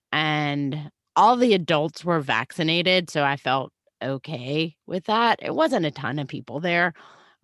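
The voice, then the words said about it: Sick, terrible-sounding voice. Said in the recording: “So as you can hear, I'm sick. ... I sound so terrible.”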